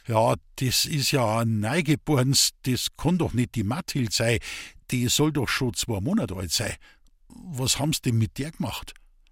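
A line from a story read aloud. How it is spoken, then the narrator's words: Stammering. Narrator (German): stotterte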